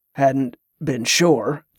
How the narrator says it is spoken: Teska rasped

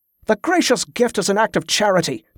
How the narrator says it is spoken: the guard snapped

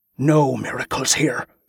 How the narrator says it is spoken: the sword priest snarled

